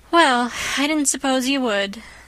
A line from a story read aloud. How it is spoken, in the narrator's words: said with a resigned sigh, feeling that she had done her best